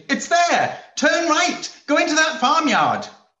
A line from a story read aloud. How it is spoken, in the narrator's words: she would have exclaimed